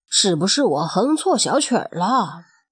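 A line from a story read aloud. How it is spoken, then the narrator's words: Muttering. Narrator (Chinese): 他嘀咕着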